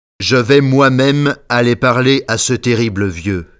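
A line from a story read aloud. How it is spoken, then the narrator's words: Plain. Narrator (French): dit Raymond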